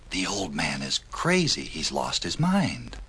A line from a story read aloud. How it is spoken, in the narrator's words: The people whispered among themselves